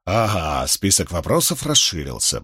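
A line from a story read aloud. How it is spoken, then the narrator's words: Grumbled. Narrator (Russian): пробурчал Поллард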